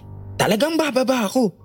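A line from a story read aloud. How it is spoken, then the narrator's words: Shouted. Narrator (Tagalog): sigaw pa nito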